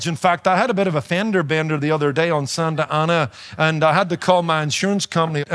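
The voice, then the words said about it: Foreign accent, mistaken for German or Australian. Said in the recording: “you know I've got an accent, right? I'm losing it a little ... I recognize that accent. ... I've been taken from everything from a German to a South African to an Australian”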